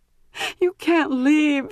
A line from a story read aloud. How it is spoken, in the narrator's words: cried desperately